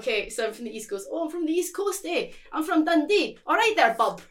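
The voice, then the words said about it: Put-on Scottish accent. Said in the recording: “a really like nice Scottish accent”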